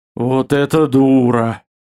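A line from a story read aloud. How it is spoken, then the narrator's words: Admiring drawl. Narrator (Russian): протянул ватажник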